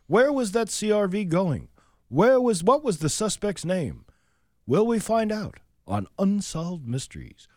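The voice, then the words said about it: Imitates another person's voice. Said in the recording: “It's actually a very good Robert Stack impersonation. ... It's not too bad.”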